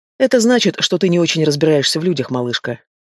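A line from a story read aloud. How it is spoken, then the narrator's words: Calm. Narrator (Russian): спокойно произнес Олег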